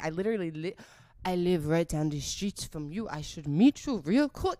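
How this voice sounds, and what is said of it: Bad put-on French accent. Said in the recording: “that was a really bad French accent.”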